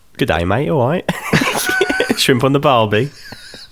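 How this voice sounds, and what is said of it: Put-on Australian accent. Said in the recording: “I can't do an Australian accent, can you?”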